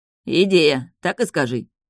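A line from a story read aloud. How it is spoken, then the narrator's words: Guard's snort. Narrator (Russian): хмыкнул страж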